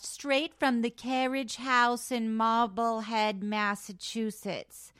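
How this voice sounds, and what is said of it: Deliberately poor put-on accent. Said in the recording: “that's not a good accent, but I tried.”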